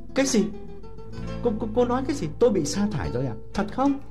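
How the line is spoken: Stunned exclamation. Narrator (Vietnamese): Thiệu sửng sốt kêu lên

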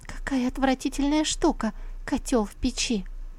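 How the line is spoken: Sad whisper. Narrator (Russian): Чон Юй грустно прошептала

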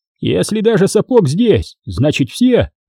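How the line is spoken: Shout. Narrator (Russian): крикнул Урал

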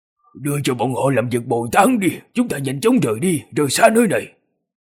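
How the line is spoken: Angry, panting. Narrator (Vietnamese): Lục Ly tức giận thở hổn hển, nói

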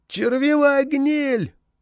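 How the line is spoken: Shout from behind walls. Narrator (Russian): прокричал кто-то из-за стен

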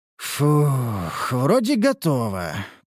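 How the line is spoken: Doubtful drawl. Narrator (Russian): протянул я с сомнением

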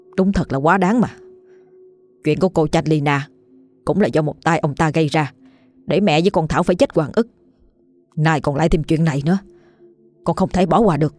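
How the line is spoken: Angry, strained voice. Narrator (Vietnamese): Anh gằn giọng

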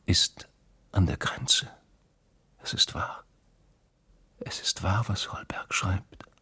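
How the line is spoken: Whispered. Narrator (German): hatte sie geflüstert

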